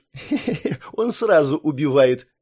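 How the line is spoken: Giggling. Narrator (Russian): хихикнула Ирисана

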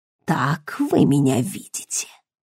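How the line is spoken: Quiet surprised question. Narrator (Russian): спросил тихо и удивленно

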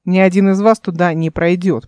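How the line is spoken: Growled. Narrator (Russian): прорычал он

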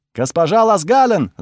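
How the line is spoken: Shouting from hallway. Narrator (Russian): закричали в прихожей

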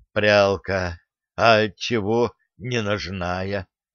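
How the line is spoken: Wheezy voice. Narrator (Russian): просипел

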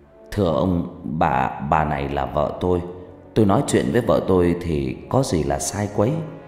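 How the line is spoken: Stammering, struggling in English. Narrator (Vietnamese): lắp bắp nói tiếng Mỹ một cách vất vả

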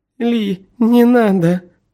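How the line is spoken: Whimpering. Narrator (Russian): захныкала она

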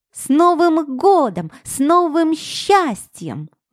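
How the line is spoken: Loud. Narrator (Russian): громко произнесла она

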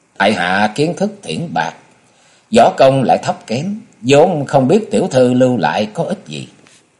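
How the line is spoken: Dry, faintly sneering. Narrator (Vietnamese): Hoàng Phủ Tinh cười nhạt ở trong lòng rồi nói

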